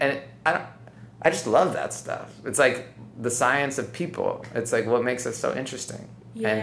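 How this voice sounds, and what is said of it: Usual voice. Nothing is said of it.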